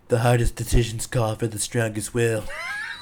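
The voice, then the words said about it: Good impression of a movie villain. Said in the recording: “that's a good impression.”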